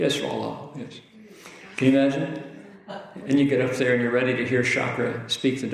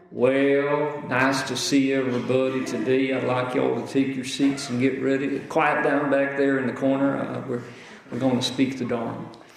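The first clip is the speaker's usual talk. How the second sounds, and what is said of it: Put-on Texas accent. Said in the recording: “He speaks with a Texas accent.”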